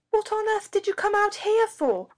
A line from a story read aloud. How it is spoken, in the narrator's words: Robert shouted